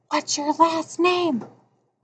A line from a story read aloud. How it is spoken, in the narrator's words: he whispered